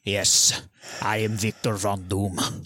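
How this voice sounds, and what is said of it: Thick put-on villain accent. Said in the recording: “Oh, he's got like a thick ... You guys read him in an accent? ... isn't it like Eastern European?”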